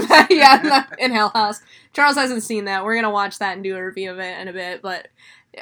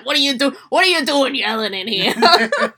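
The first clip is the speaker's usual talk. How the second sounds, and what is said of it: Put-on New York accent character voice. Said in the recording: “it was like the Satan guy's voice from freaking Hell House ... Satan has a New York accent?”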